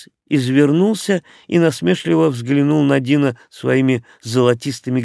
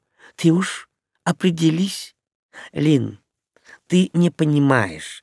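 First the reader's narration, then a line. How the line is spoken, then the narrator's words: Soft, as to a child. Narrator (Russian): мягко, как к маленькой обратился к ней Крис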